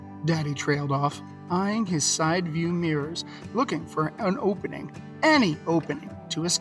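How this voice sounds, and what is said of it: Usual voice. Nothing is said of it.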